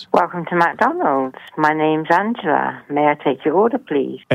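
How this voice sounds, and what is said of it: Delightful accent, likely English. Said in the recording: “I just love that accent ... You just have the most delightful accent I have ever heard.”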